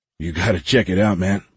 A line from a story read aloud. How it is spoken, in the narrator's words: Michael said